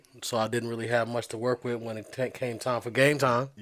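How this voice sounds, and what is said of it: Hoarse, strained voice. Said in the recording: “That's where I lost my voice.”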